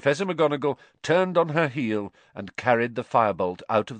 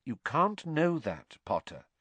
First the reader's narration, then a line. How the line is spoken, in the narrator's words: said Professor McGonagall, quite kindly